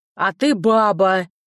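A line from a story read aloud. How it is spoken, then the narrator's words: Husband roaring. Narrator (Russian): взревел муж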